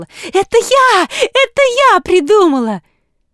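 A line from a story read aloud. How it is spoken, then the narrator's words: Heated full-throated shout. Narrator (Russian): сгоряча закричала во все горло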